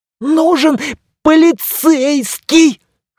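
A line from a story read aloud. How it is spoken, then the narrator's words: Hoarse hateful strained words. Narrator (Russian): хрипя от ненависти, выдавил Лайт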